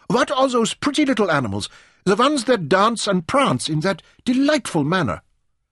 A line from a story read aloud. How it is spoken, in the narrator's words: she cried